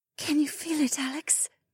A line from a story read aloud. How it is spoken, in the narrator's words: Shay whispered against my chest